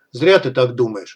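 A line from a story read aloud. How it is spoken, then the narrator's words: Mutant's smirking grunt. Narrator (Russian): хмыкнул мутант, вернее, его левая голова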